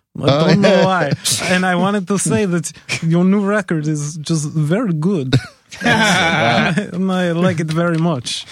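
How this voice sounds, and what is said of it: Put-on Russian or Eastern European accent. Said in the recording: “I kept doing it in a Russian accent ... Is that a Russian? ... That wouldn't have been my first guess. ... it's kind of Polish too, right? ... It's kind of like a little more Eastern European.”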